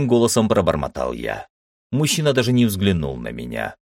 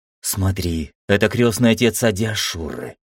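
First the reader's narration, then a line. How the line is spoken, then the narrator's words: Whispered. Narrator (Russian): прошептала Ира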